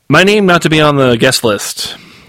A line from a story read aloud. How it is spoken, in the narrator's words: he said